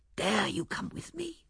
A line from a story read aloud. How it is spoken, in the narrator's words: he whispered